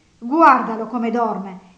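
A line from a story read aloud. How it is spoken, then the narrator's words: Indignant woman's exclamation. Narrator (Italian): esclamò lei indignata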